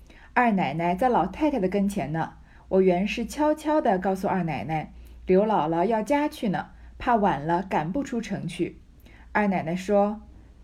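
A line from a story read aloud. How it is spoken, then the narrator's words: Laughing. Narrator (Chinese): 周瑞家的笑道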